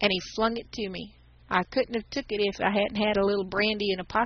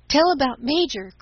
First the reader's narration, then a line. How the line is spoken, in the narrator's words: cried the boys, impatient for the catastrophe